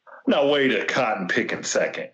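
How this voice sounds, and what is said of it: Foghorn Leghorn cartoon voice impression. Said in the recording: “my Foghorn Leghorn imitation.”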